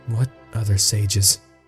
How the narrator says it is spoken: Link asked, far more quietly

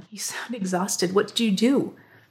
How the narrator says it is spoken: He groaned

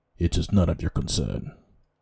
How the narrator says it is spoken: the Spartan grunted back, not wishing to speak on this topic any further

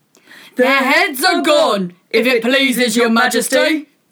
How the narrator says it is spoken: the soldiers shouted in reply

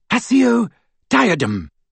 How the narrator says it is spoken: cried Hermione in desperation

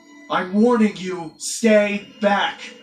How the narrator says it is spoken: yelled in panic

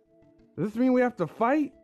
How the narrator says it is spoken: He said excitedly

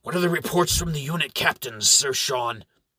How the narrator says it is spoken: Amherst shouts, though his failing voice barely scratches out more than a whisper

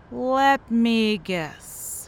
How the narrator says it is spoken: he slurred

